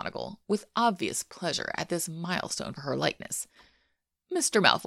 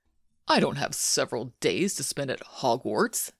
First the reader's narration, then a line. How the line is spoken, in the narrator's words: Malfoy sneered